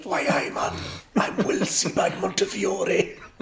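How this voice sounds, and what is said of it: Loud whispered Geordie accent. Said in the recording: “does her Geordie accent quietly ... her Geordie accent can only be shouted at extreme volume ... That's still quite a loud whisper ... how I imagine Will would whisper if he was a Geordie in a library”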